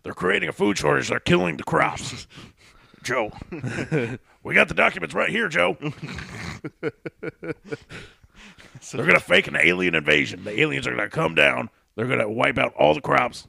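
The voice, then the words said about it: Imitates another person's voice. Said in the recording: “Fucking Alex Jones over here ... That's such a good fucking impression.”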